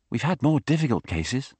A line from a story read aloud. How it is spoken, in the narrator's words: said Lacoste